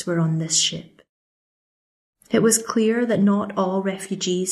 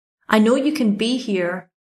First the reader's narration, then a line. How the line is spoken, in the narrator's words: shouted